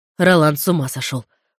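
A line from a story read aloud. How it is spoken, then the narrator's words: Snorted. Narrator (Russian): фыркнул Филипп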